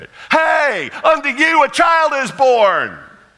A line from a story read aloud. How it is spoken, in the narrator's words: hollered, as if it was, for sure, the best news in the world